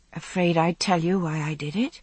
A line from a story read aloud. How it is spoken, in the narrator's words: I said softly